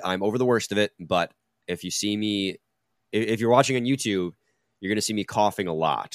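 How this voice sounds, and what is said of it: Voice sounds sick with a cold. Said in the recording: “I probably sound different. That's because I caught a cold over the weekend ... that's why my voice is a little bit different”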